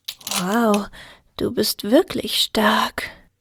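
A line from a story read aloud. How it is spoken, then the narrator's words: Murmur. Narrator (German): murmelte Alpina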